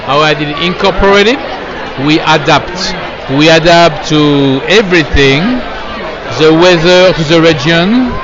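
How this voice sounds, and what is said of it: French accent. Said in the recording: “I just love the French accent.”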